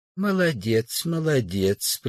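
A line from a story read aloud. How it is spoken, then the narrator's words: Kind old man's voice. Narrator (Russian): произнес добрым голосом старик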